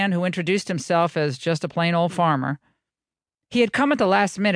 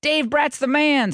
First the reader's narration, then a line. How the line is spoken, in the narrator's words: blurted out